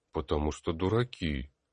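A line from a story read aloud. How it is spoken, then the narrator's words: Gloomy answer. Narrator (Russian): мрачно ответил Тар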